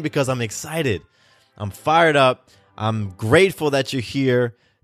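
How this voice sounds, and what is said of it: Shouting excitedly into the mic. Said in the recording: “I'm shouting into the mic today. I'm shouting”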